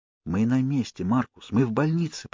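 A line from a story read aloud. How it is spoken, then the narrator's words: Whisper. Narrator (Russian): прошептал я мальчику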